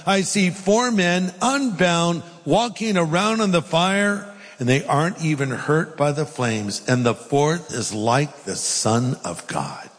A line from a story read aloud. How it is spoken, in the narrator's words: Nebuchadnezzar shouted